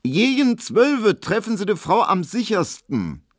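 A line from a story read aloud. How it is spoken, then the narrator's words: Loud, meant to be overheard. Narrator (German): sie sagte so laut, dass es Emil Kubinke hören musste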